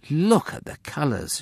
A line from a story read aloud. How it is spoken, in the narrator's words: Shem gasped